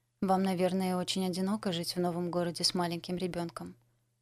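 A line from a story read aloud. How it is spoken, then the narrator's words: Calm. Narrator (Russian): спокойно сказала Дорис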